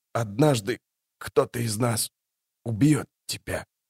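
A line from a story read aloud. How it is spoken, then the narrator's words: Breathed out. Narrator (Russian): выдохнул он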